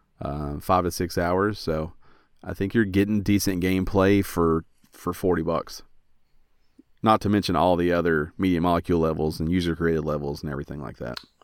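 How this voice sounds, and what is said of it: Hoarse, strained voice. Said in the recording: “I'm not always losing my voice,”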